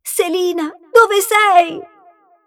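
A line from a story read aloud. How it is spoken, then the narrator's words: Princess's melancholy cry. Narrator (Italian): non sopportando la malinconia che le opprimeva il cuore, la principessa gridò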